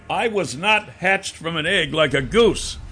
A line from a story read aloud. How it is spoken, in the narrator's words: I yelled